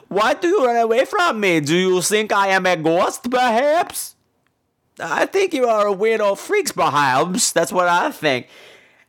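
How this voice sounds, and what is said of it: Put-on odd foreign accent. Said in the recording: “what accent is that?”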